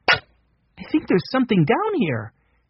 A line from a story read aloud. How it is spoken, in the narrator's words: said excitedly